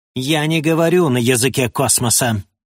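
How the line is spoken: Spiteful, dull smirking. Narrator (Russian): заявил король, злобно и тупо усмехаясь

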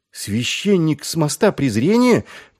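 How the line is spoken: Shocked exclamation. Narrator (Russian): потрясенно воскликнул Маркоу

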